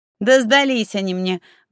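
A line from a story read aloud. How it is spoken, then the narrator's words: Proud snort. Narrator (Russian): гордо фыркнула Светка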